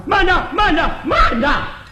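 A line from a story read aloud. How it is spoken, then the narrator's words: Loud shout. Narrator (Chinese): 在后边有人高声喊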